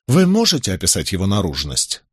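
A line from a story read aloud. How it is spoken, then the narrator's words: Plain question. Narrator (Russian): спросил Майлз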